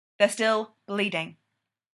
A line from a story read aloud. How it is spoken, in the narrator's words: Styles says flatly